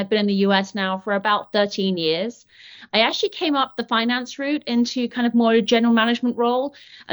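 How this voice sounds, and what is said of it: British accent. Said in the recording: “I am British, in case you haven't noticed. This is not a Mainers accent”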